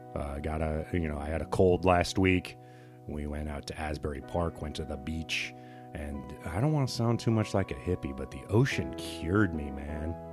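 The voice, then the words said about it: Slightly scratchy voice. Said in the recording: “My voice is still a little scratchy”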